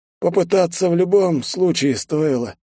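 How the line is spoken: Terse. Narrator (Russian): лаконично

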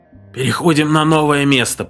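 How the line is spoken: Hoarse rasp. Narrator (Russian): прохрипел он

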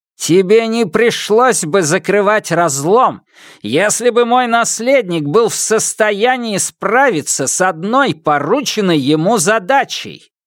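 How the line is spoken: Thundering. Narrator (Russian): прогремел император

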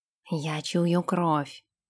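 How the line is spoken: Whisper. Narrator (Russian): прошептал он

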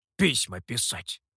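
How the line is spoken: Grumbled. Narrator (Russian): буркнула обезьяна

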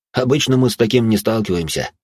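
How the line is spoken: Amused snort. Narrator (Russian): хмыкнул сыщик

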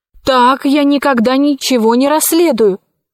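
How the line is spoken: Exclaimed. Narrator (Russian): воскликнула она

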